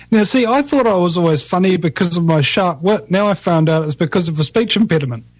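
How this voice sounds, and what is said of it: New Zealand accent. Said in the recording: “somebody said I had a funny accent ... they're not used to the Kiwi accent”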